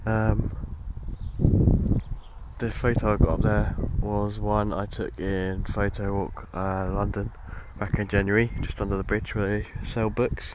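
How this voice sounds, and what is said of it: Voice in poor condition. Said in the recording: “my voice is a bit crap today”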